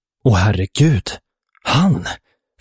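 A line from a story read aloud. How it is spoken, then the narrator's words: Gasped. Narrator (Swedish): flämtade Dutchy och bleknade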